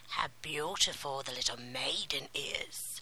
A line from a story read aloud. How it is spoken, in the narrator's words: she croaked